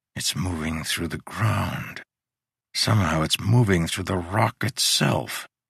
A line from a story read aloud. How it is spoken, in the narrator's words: Eyes still closed, he whispered